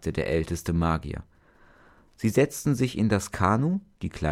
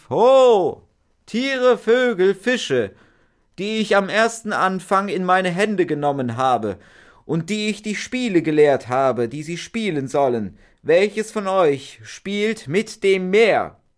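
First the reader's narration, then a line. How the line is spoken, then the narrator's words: Old magician calling out. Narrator (German): der älteste Magier rief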